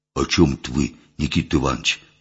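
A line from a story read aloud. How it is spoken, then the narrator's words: Artless whisper. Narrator (Russian): простодушно шепнул Митька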